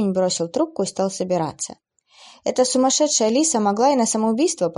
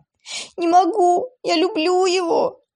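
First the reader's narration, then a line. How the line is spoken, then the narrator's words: Sobbing girl forcing words out. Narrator (Russian): Рыдания в трубке слышались еще несколько минут, а потом девушка выдавила из себя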